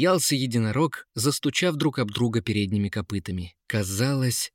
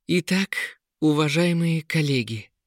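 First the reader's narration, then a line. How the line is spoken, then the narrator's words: Solemn announcement. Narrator (Russian): торжественно объявила Анеит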